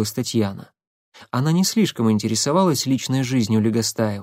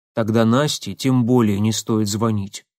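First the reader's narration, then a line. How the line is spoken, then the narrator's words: Plain. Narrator (Russian): сказала Ирина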